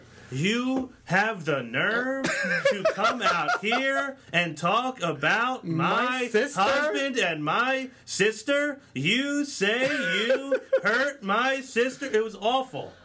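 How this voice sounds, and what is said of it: Slow, over-pronounced imitation of another person. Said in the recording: “pronounces every letter and every word... She talks so slow to pronounce every letter and a word... my Brie impression”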